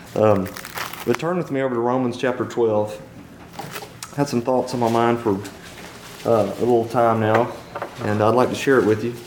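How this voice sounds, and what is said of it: Hoarse, worn-out voice. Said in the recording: “I apologize for my voice tonight. It's gone this every year about this time. The allergies hit me.”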